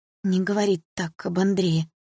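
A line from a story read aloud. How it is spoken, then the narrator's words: Mother's trembling voice. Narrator (Russian): дрожащим голосом сказала мама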